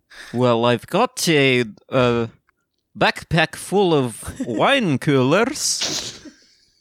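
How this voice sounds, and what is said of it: Put-on accent, done well. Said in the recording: “accent. Change your accent. ... Oh, accent only. Okay. ... Yeah, accent only. ... That's really good.”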